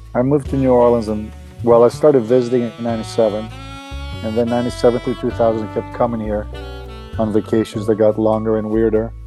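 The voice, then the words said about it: Attractive foreign-sounding accent. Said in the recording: “you have a sexy accent.”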